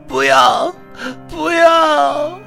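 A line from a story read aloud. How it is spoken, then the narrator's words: Crying and screaming. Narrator (Chinese): 女孩 又哭又喊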